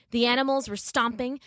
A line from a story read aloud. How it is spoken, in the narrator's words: the people yelled a roaring din